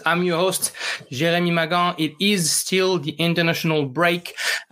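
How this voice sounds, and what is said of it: French accent in English. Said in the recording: “the French football podcast with the accent.”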